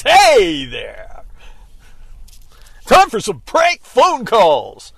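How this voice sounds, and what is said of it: Exaggerated radio announcer voice. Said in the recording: “radio voice.”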